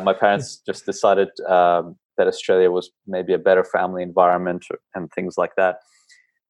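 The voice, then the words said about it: Non-Australian sounding accent. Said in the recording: “my accent may sort of make you think otherwise”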